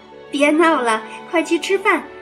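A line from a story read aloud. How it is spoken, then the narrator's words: Laughing. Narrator (Chinese): 妈妈笑道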